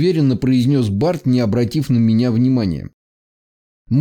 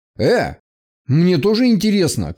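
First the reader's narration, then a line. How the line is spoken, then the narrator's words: Shouted after them. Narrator (Russian): крикнул я им вслед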